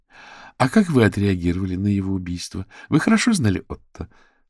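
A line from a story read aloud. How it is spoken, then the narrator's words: Forced calm question. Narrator (Russian): спросила Вера самым спокойным тоном, на который только была способна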